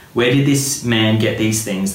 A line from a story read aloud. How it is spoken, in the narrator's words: they asked